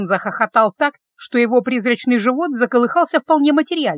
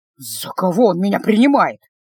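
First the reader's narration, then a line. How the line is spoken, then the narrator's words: Muttering to himself. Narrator (Russian): Пробурчал больше для себя, чем для кого-то еще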